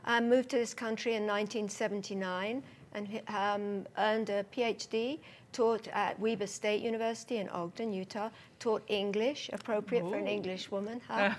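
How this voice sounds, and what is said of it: English accent. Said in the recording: “that beautiful accent that you have? ... From England. I was born and raised just north of London.”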